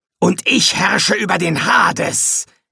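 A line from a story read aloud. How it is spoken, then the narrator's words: Hissed. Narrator (German): zischte er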